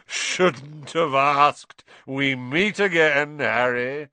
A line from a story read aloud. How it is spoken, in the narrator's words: Lockhart thundered jovially